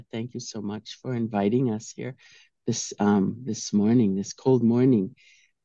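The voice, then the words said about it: Sick-sounding voice. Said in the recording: “sorry about my voice. ... I'm a little under the weather”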